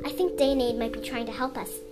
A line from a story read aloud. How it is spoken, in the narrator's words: he said quietly